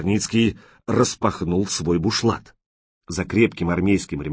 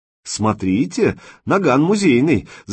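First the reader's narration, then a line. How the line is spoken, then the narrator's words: Laughing. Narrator (Russian): засмеялся человек со шрамом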